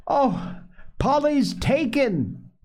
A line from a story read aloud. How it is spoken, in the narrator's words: screamed Mrs